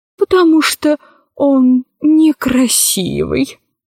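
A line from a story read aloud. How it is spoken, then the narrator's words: Languid sighing. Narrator (Russian): сообщил ей адъютант и томно вздохнул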